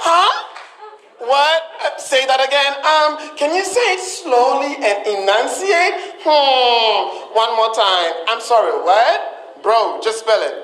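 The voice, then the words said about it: Ghanaian accent. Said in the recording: “My homebred, homemade Ghanaian accent”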